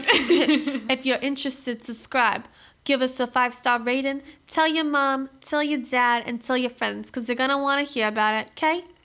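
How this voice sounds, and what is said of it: Put-on Boston accent. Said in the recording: “that was my impersonation of being a Boston a gal ... Boston chick”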